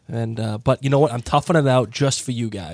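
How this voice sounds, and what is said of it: Hoarse congested voice from a cold. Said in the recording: “my voice sounds like absolute hot garbage ... I got a cold. I've been coughing and sneezing and sniffling ... my voice sounds like crap”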